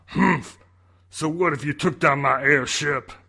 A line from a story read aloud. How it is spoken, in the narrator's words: Bowser growled